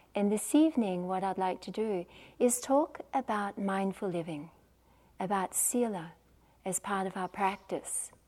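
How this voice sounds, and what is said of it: Australian accent. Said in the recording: “I'm the one from Australia, as you can probably tell from my accent.”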